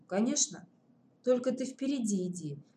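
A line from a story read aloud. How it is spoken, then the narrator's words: Quiet private whisper. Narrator (Russian): шепнула Наташка, чтобы услышал только он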